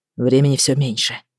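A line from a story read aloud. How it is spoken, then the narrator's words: Quiet. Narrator (Russian): тихо ответил Эд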